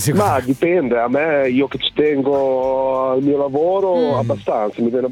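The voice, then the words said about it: Nice regional accent. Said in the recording (Italian): “Che bello accento, ve lo dico.”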